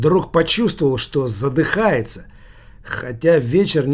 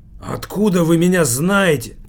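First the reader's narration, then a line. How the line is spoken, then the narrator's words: Hoarse croak. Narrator (Russian): прохрипел Килькин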